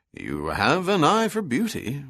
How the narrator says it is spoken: Bronson said with a mild chuckle

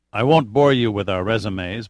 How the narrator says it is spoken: Pitt said calmly

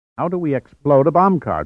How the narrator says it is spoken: Tsuboi demanded impatiently

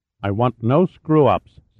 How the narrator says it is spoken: said Polovoy firmly

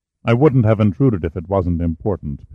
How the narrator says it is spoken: Pitt said

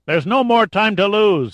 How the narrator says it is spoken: he yelled at the top of his lungs to make himself heard over the din of the frightened crowd and the roar of the Holocaust

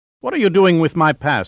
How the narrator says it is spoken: he demanded indignantly

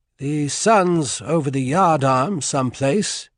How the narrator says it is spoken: said in a crisp British accent

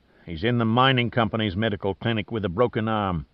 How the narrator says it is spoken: Merchant answered sullenly

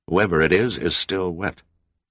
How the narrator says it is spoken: murmured, his face a mask of horror

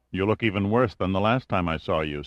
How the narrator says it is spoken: said Pitt

